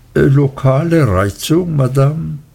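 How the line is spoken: Gentle repetition. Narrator (German): Er wiederholte sanft

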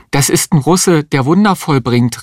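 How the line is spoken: Calling out. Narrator (German): rief die Existenzialistin

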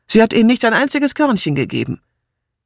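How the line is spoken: Shouting. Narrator (German): rief Martha

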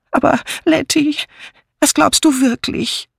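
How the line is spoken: Wailing lament. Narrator (German): jammerte Miss Banner

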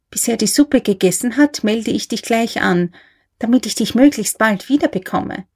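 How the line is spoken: Whisper. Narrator (German): flüsterte

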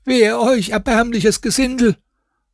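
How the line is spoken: Water carrier screaming. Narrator (German): Wasserträger, welcher dann schrie

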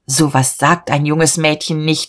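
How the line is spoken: Shouted indignantly. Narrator (German): schrie er entrüstet

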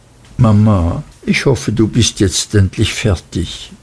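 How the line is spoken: Very quiet trembling voice. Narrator (German): Sie sagte sehr leise mit bebender Stimme

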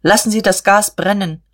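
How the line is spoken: Called out. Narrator (German): rief er dem Maschinenmeister zu

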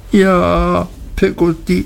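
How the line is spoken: Sobbing. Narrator (German): schluchzte ich

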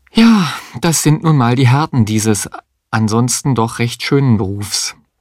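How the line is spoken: Sighing remark. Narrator (German): Mario seufzend bemerkte

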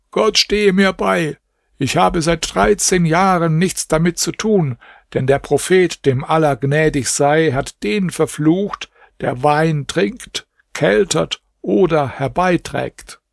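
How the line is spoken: Calling out. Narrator (German): Da rief Ibrahim

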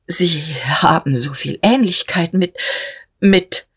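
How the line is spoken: Stammered. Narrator (German): stammelte Notgroschen

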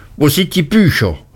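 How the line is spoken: Horrified cry. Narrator (German): rief er mit entsetzter Miene

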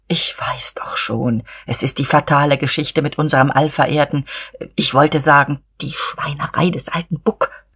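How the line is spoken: Confidential whisper. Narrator (German): flüsterte vertraulich

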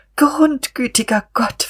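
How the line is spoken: Whimper. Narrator (German): wimmerte sie

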